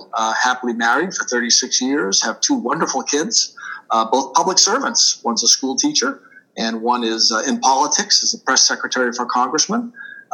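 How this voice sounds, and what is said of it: Boston accent, dropped R's. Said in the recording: “I'm a native Bostonian, so you will hear me park my car every once in a while. I do tend to lose my R's ... yes, you're hearing a Boston accent.”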